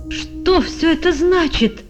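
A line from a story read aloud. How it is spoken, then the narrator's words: Exclaiming, trembling with anger. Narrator (Russian): воскликнул пан Клякса, весь дрожа от гнева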